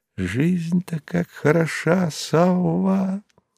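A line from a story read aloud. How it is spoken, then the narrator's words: Smiling whisper. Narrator (Russian): обезоруживающе улыбнулся Станиславский и шепнул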